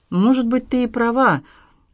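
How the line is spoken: Breathless exhale. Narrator (Russian): выдохнул Дмитрий

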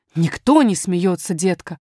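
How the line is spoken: Dismissive, almost angry. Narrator (Russian): отмахнулась няня почти сердито

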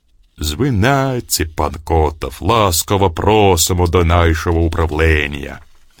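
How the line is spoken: Deep bass voice. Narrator (Russian): пробасил

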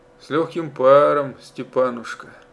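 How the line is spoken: Warm, deep, pleasant, smiling. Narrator (Russian): Жена улыбнулась в ответ и сказала грудным приятным голосом

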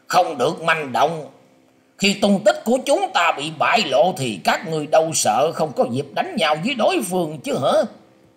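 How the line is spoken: Commanding shout. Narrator (Vietnamese): Triển Hoành trông thấy thế bèn cao mài quát lên rằng

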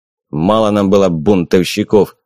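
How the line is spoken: Grumbled. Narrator (Russian): проворчал Богданов

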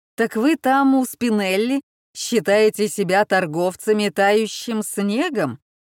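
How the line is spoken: Deep rumbling bass. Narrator (Russian): Басом пророкотал один из посетителей

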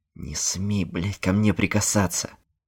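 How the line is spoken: Furious hiss. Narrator (Russian): В бешенстве прошипел Нил

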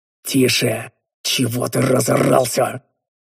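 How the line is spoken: Hissing. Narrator (Russian): зашипел я

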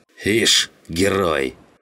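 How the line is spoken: Snort. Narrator (Russian): хмыкнул Жиган

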